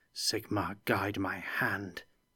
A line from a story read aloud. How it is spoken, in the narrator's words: muttered